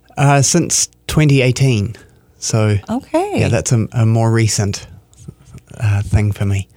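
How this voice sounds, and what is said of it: New Zealand accent. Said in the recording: “the accent. It's lovely... I'm from New Zealand.”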